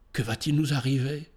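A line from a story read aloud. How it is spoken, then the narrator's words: Murmured. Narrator (French): murmura-t-elle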